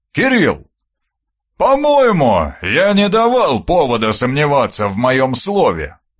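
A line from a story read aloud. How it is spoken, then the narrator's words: Booming. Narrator (Russian): прогудел Аристарх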